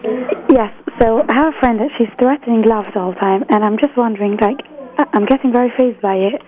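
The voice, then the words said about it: British accent. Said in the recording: “There's a British accent.”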